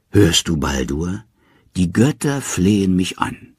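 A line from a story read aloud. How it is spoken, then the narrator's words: Contented catlike purr. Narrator (German): sagt Hel, und nun schnurrt sie wie eine Katze vor Behagen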